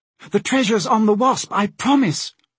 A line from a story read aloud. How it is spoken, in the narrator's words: cried the prisoner